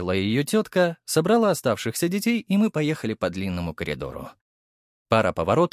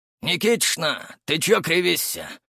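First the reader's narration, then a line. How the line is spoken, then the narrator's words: Hoarse question. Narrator (Russian): спросил хриплый голос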